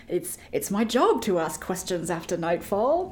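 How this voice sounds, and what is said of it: Put-on accent. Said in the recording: “That was a pretty good accent. ... That was great.”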